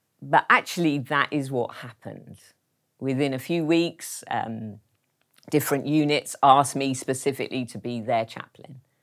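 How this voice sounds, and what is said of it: Foreign-sounding accent. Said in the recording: “I've got a funny accent”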